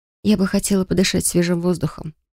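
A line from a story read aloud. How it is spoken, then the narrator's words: Whisper. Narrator (Russian): прошептала я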